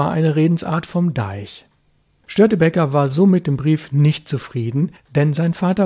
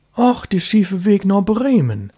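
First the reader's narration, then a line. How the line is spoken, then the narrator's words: Calling out. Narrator (German): rief Störtebeker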